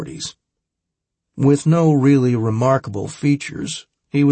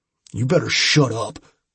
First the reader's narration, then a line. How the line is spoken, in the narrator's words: Franks growled